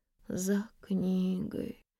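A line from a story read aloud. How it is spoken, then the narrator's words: Weak voice. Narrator (Russian): слабым голосом проговорила Надежда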